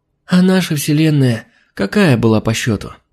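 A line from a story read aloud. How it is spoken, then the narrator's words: Sleepy. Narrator (Russian): сонно уточнила Алина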